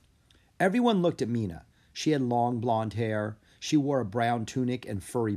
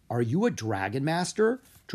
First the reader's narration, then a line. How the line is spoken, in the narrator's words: Drake asked